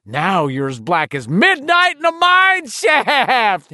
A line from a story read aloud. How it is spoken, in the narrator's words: Henry screamed triumphantly